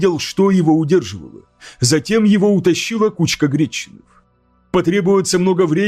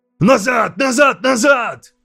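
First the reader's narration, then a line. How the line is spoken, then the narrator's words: Shouted. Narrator (Russian): крикнул я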